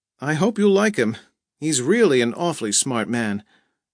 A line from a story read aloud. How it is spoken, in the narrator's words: Janice said, pitching her voice above the wind